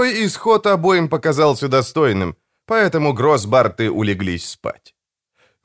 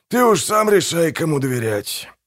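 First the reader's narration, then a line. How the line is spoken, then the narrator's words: Sigh. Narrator (Russian): вздохнул Манфрид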